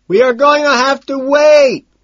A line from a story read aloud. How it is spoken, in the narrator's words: I scream louder